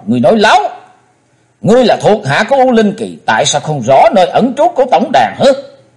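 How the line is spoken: Loud shout. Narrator (Vietnamese): Chí Tôn chàng hét to

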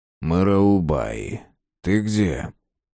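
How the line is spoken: Insinuating but clear. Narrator (Russian): Вкрадчиво сказал, но внятно

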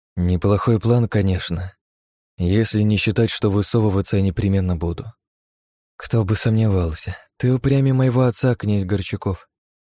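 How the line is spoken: Long sigh. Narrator (Russian): Нелли протяжно вздохнула

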